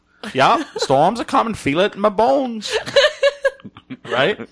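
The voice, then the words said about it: Put-on Maine accent. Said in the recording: “the accent in Maine ... I'm trying to think of what it sounds like.”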